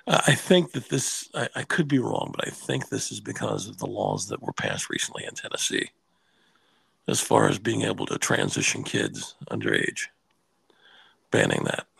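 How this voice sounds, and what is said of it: Hoarse, weakened voice from cold. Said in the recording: “If I sound strange, it's because I've got a little bit of a cold, and so my voice is gone a little bit”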